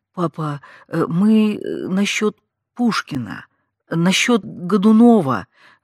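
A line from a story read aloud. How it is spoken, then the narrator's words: Mumbled. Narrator (Russian): бормотала я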